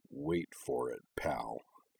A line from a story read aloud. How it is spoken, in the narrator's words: she muttered, her voice a sort of low, happy growl